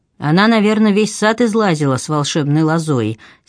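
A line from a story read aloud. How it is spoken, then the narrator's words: Angry. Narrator (Russian): сердито произнес Марк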